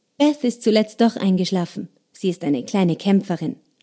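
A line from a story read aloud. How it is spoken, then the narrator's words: Plain. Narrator (German): sagte Anne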